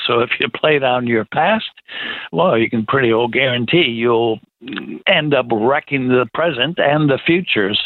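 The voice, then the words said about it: American accent. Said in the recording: “they can hear your American accent.”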